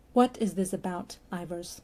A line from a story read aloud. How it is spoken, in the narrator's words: he said in a quiet voice, far more dangerous